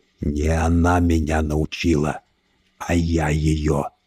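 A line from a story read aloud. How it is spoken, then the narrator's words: Quiet monster, secret language. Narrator (Russian): тихо ответил монстр на тайном языке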